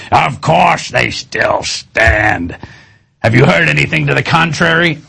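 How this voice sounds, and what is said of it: Imitates another person's voice. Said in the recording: “my Dick Cheney impersonation.”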